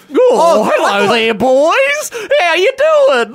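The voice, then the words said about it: Silly put-on character voice. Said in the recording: “Why were you just doing a silly voice?”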